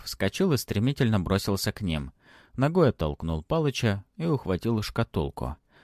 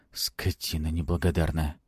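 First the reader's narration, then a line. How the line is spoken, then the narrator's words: Whispered. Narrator (Russian): прошептал ему в спину Палыч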